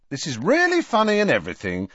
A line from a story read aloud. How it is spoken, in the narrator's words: said Harry impatiently